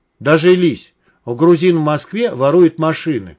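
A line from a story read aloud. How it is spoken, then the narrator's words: Exclaiming. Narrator (Russian): воскликнул Тимур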